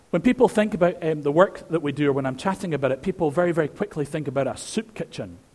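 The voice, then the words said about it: Scottish Edinburgh accent. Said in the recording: “Edinburgh, where my accent betrays me from”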